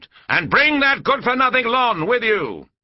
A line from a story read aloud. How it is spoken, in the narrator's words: it boomed